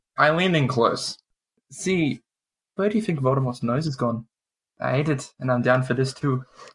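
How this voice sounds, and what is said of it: Wildly inconsistent put-on accent. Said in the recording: “What accent? What accent is this? ... My accent is wildly inconsistent”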